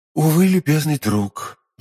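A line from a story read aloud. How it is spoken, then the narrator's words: Sighing. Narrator (Russian): вздохнул Арамис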